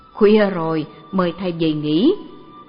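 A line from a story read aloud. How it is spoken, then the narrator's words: Laughing loud speech. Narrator (Vietnamese): Ông cười to, nói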